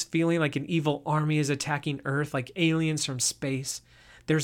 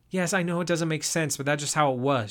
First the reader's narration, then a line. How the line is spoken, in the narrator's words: answered